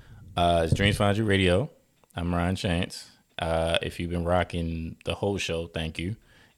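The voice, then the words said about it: Smooth radio DJ voice. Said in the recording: “My radio voice is pretty tight.”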